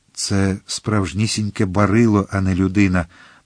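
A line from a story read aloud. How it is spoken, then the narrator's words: Muttered. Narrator (Ukrainian): пробурмотів хазяїн заїзду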